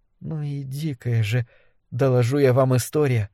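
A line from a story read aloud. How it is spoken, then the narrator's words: Muttering to herself. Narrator (Russian): бормотала она себе под нос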